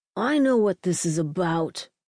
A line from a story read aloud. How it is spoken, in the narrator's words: screeched